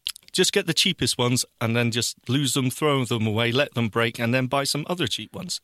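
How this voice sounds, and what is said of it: Speaks with a noticeable accent. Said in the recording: “I've got one person with an accent. ... that's all I'm here for, the accent.”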